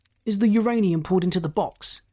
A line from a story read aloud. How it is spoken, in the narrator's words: he barked sharply